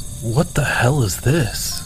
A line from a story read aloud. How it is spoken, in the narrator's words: muttered